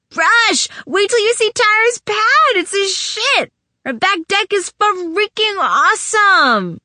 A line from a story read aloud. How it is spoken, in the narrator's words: with loud exuberance, shouting